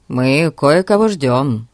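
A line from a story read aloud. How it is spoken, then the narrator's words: Calm reply. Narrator (Russian): спокойно ответил Фати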